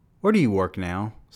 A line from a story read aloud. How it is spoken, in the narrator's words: Snooki Kane asks